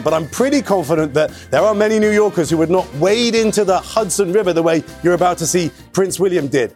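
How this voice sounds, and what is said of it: Non-New York accent. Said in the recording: “I'm no New Yorker, right? You can tell from the accent”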